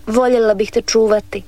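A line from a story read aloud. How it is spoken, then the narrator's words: Plain. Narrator (Croatian): reče ona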